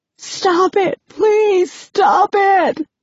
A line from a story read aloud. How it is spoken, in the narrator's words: screaming